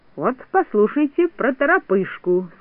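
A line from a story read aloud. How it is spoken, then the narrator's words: Plain. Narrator (Russian): сказал Незнайка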